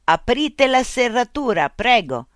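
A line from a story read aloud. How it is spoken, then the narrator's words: Laughing. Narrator (Italian): Mitch rise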